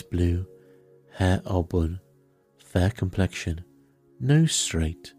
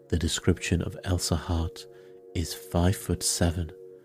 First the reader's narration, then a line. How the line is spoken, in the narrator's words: Poirot paused and then added softly